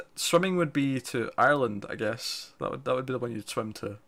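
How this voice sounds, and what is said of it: Scottish accent. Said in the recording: “If you can't recognise my accent, I'm Scottish.”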